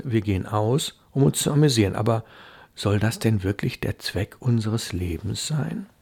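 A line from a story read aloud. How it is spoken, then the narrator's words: Quiet. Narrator (German): sagte Hilda leise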